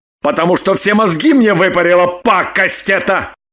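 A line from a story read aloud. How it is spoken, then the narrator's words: Angry admission. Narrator (Russian): Зло признался Вован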